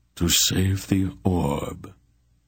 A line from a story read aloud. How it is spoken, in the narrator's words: he replied sadly